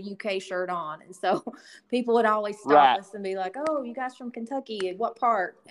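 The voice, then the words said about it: Thick Kentucky accent. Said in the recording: “I still have a pretty thick accent ... why I talk the way I talk”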